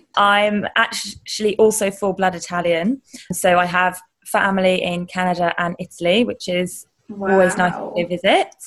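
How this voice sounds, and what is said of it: Strong British accent. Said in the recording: “I've got a strong British accent.”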